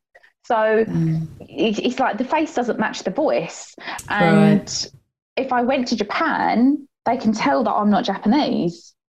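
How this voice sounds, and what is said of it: English accent. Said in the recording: “you can tell by my accent, I was born up, brought up here”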